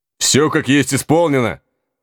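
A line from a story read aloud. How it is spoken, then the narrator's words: Loud bark. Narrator (Russian): на всю улицу гаркнул он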